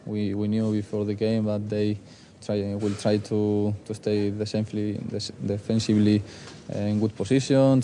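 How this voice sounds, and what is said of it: Spanish accent. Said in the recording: “a Spanish accent”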